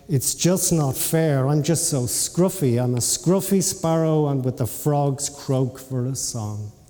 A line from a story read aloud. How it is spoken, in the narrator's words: sighed